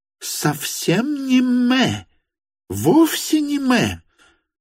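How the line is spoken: Exclaiming. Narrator (Russian): воскликнула Варвара Петровна

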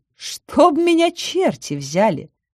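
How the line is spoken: Thoughtful. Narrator (Russian): задумчиво сказала Веста

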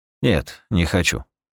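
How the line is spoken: Flat, expressionless. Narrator (Russian): ответил я ничего не выражающим голосом

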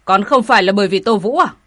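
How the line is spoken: Indignant shout. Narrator (Vietnamese): Người báo tin căm phẫn quát

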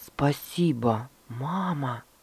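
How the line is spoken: Quiet. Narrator (Russian): сказал он тихо

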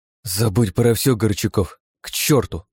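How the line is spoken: Noisy exasperated exhale. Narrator (Russian): шумно выдохнула через нос

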